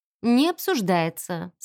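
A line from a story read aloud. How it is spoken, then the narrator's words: Calm. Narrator (Russian): сказал я спокойно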